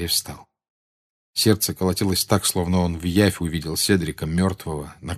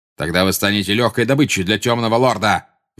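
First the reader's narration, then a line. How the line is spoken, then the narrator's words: Furious shout. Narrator (Russian): в бешенстве выкрикнул Снег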